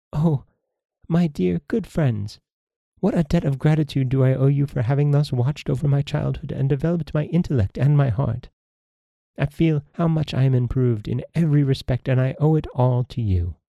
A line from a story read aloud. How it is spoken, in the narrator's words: Surprised, delighted, she said to them